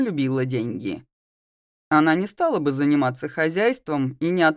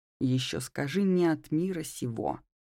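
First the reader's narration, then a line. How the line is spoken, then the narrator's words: Grumbled to self. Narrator (Russian): проворчала про себя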